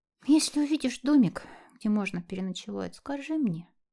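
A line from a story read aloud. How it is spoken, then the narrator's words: Sleepy request. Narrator (Russian): попросила Элли сонным голосом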